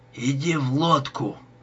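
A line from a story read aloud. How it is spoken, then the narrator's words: Hoarse rasp. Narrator (Russian): прохрипел Бид Ральфу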